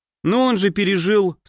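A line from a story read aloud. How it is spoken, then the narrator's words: Calm. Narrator (Russian): спокойно ответил я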